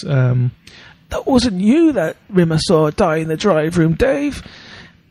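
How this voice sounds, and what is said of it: Old man's Scouse accent impression. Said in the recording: “another good impression of an old Scouse guy ... Top quality impression”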